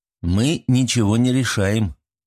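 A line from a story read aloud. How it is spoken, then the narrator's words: Sighing. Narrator (Russian): Арсений вздохнул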